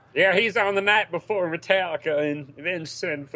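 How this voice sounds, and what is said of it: Country singer voice impression. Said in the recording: “my Luke Bryan impersonation ... It's spot on. It could be any country singer.”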